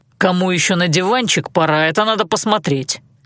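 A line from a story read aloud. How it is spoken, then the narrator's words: Snapped back. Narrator (Russian): огрызнулся Алан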